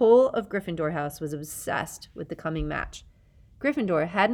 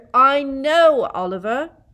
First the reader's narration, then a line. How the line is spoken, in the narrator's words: Harry yelled